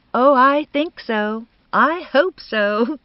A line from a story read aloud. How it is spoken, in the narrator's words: said Bertha brightly